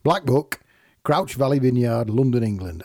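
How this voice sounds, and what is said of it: Put-on northern English accent. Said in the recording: “I don't know why I said it with a northern accent, because it won't be anywhere near Yorkshire.”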